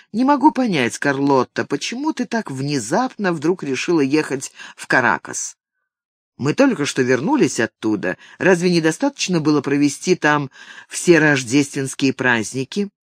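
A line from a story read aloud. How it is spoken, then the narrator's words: Forced calm, conciliatory. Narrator (Russian): Ник стараясь говорить спокойно, примирительно произнес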